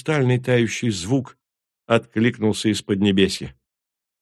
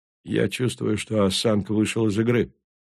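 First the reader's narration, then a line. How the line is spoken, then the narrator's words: Calm. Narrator (Russian): спокойно произнес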